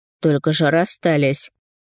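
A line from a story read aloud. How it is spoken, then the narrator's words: Wry snort. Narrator (Russian): хмыкнул Степан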